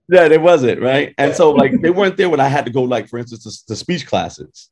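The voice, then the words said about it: Brooklyn accent. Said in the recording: “you can hear my Brooklyn accent ... There's nothing wrong with the Brooklyn accent.”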